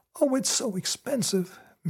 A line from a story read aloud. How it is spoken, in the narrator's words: Minnie moaned